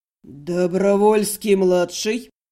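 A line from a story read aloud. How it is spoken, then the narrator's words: Hostile growl. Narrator (Russian): не сдержался и неприязненно рыкнул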